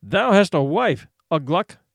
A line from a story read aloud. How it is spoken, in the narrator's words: he said